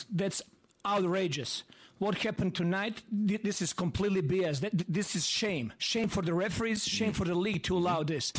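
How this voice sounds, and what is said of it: Thick accent. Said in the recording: “Got thick accent.”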